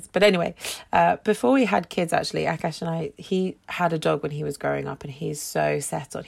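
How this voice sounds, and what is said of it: Gravelly, hoarse voice. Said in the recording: “my voice is really gravelly. I lost my voice a few days ago ... it's a bit gravelly still ... coughing and spluttering”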